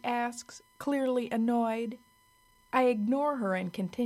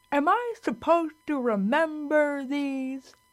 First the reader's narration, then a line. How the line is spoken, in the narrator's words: she toothlessly asks, still laughing